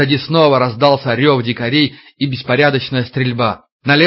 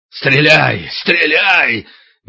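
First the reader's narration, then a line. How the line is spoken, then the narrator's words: Hoarse wheezing shout. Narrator (Russian): Мельников хрипел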